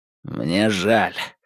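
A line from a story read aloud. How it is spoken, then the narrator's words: Hoarse. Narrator (Russian): услышал он рядом хриплый голос Домбровского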